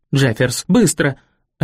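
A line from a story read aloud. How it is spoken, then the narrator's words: Barking. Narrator (Russian): рявкнула она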